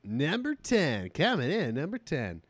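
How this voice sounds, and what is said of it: Casey Kasem radio countdown impression. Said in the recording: “And do a Casey Kasem impression.”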